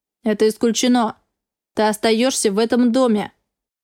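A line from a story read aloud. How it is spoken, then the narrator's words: Firm voice. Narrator (Russian): Произносит твердым голосом Муратов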